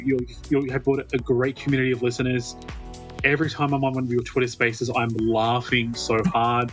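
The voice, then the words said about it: Strong accent, very fast speech. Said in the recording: “my accent has been very hard to understand... I speak very fast”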